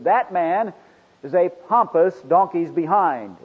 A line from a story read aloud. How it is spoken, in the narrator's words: one of the volunteers, in a very loud voice, he said